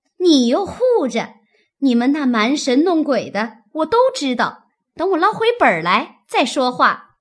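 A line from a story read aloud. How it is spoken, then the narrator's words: Laughing. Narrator (Chinese): 晴雯笑道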